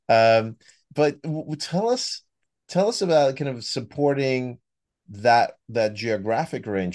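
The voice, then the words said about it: American accent. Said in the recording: “the US, as you could hear from my accent”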